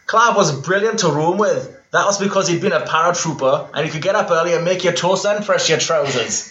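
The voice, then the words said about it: Imitates another person's accent. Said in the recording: “I'll do this in a Mick Shoebottom accent. I'm just assuming what he sounds like. ... That's not bad.”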